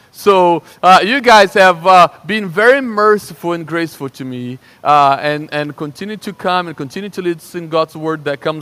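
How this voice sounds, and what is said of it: Slight Brazilian accent. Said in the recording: “that's an accent. I'm from Brazil. I have a little accent.”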